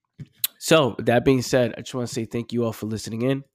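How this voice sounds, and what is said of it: Affected, mellow-sounding voice. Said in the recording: “sorry for my voice. I think it made me more mellow, made me articulate my words better.”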